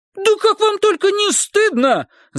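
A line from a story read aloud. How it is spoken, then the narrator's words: Screaming. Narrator (Russian): завопила она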